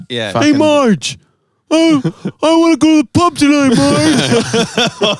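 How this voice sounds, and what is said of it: Poor cartoon character voice impression. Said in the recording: “That was a bad impression”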